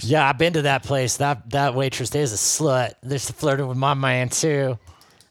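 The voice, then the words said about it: Put-on Southern accent. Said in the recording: “that was a pretty good Southern accent though. I didn't even mean to do that. ... That was not too bad.”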